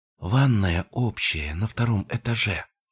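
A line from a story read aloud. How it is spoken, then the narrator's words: Whispered. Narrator (Russian): шепотом пояснила Фенрис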